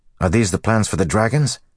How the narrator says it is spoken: Matt asked eagerly

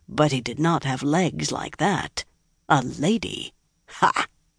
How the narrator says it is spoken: In a mutter, he added

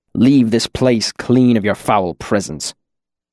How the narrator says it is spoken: the arcanist muttered to himself

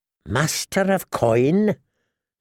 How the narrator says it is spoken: said Tyrion, in a thin, strained voice

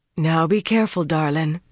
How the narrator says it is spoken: Caroline said in that throaty voice

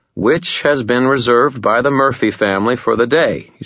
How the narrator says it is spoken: he said

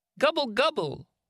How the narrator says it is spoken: Manfred cried

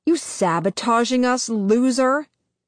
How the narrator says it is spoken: Nine snarls

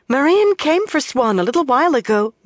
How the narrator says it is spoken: Mirel said excitedly

